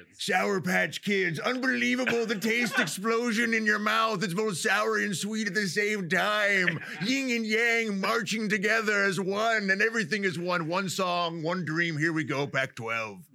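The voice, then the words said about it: Imitates another person's voice. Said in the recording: “best Bill Walton impression”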